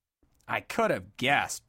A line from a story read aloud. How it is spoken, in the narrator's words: blurted Dodd angrily